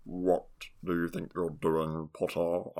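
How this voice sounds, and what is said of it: Snape impression, voice back in throat. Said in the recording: “your Snape impression, I think it's a tiny bit too back. Kind of back in the throat.”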